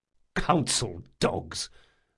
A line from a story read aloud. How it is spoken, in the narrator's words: muttered another officer